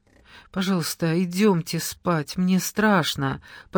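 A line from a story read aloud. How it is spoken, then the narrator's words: Frightened moan. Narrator (Russian): простонала Элка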